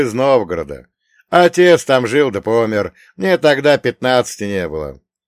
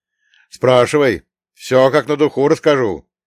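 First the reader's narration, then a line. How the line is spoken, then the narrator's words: Sighing. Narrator (Russian): вздохнул Елисей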